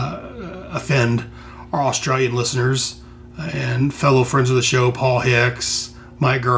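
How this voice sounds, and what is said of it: Usual voice. Nothing is said of it.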